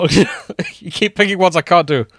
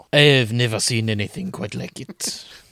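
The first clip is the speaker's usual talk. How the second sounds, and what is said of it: Attempted French accent, Monty Python-like. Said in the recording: “He's going French... That's more Monty Python”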